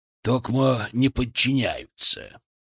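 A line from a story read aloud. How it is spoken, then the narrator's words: Low, angry voice. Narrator (Russian): Негромко, но зло сказал Матвеев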